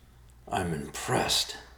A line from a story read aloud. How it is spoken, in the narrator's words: said through clenched teeth